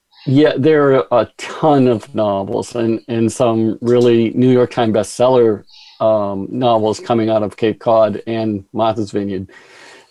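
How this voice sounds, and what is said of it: Kennedy-era Massachusetts accent. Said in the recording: “Did you all just hear him say Martha's Vineyard? ... We haven't heard that accent since the Kennedy era.”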